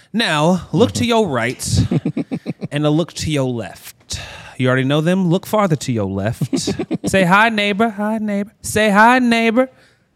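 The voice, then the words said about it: Put-on southern preacher accent. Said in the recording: “Why do you have this southern accent? ... Preachers that's what do. Like. They're not from the South, but when they talk, they're from the South.”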